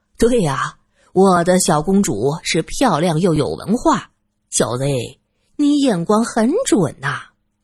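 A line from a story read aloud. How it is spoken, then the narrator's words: Laughing. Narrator (Chinese): 汉斯则笑道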